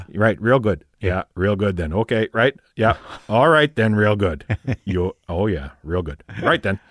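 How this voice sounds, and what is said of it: Fargo-style Midwestern accent impression. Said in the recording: “when I watched Fargo, I couldn't stop laughing because everybody just sounded like my dad ... especially on the phone when the William H. Macy character would be on the phone”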